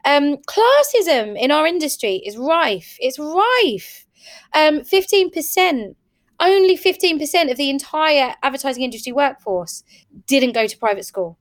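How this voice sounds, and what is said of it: Slight Essex accent. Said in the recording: “my accent's kind of there, is it? ... So there's still an ethics twang there. ... There's a twang.”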